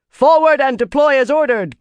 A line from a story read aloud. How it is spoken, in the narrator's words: Gaibon shouted